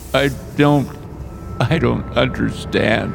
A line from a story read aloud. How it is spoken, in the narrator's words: I slurred